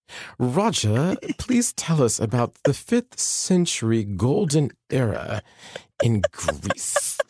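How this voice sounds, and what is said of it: Put-on posh Oxford professor accent. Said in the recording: “these professors from Oxford ... how do they talk ... I'm really bad at accents”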